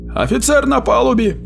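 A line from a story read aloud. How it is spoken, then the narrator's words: Shout. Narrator (Russian): крикнул Удольфу Локраст, механик-водитель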